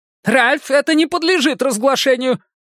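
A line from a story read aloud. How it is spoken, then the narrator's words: Squeak. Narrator (Russian): пискнул Сэмюэлс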